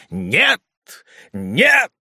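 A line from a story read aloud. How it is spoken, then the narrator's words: Shouting. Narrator (Russian): закричал Ругон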